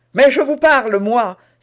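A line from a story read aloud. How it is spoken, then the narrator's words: Exasperated young man exclaiming. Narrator (French): s'écria le jeune homme exaspéré de ce mélange d'insolence et de bonne manière, de convenances et de dédain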